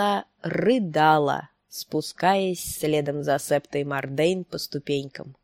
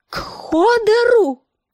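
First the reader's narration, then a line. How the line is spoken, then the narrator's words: Screamed. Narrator (Russian): завопила Санса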